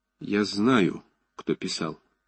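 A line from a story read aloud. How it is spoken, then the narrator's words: Quiet. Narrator (Russian): тихо сказал Ромашов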